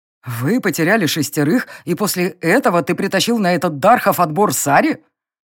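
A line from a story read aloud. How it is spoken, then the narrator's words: Low growl. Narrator (Russian): низко прорычал фон Грейслинг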